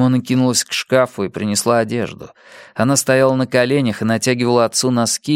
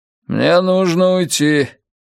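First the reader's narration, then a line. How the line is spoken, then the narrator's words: Curt mutter. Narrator (Russian): нелюбезно буркнул Кеннет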